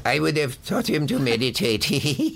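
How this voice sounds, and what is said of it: Imitates another person's voice. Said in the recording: “That's an exact imitation.”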